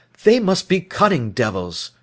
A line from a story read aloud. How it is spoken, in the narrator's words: he exclaimed at last